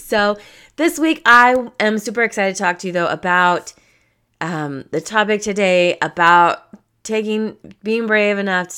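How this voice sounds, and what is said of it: Croaky, froggy voice. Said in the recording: “I'm a tiny bit under the weather and I kind of sound like a frog.”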